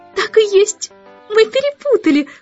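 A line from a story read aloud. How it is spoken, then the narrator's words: Exclaiming woman. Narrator (Russian): воскликнула дама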